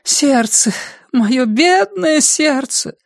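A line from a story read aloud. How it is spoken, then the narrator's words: Moaning, female. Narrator (Russian): простонала она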